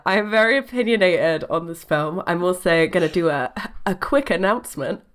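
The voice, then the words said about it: Rough, sick-sounding voice. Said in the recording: “I am dying ... my voice sounds like I've been shoved down a chimney”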